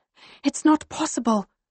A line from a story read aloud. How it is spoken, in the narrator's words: I whisper